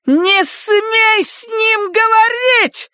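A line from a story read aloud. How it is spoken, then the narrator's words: Shouting. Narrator (Russian): закричала она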